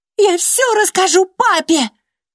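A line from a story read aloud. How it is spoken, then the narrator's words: Shouted. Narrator (Russian): выкрикнула она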